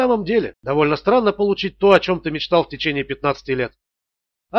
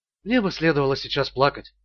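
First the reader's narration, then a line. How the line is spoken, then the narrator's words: Quiet. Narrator (Russian): тихо сказала она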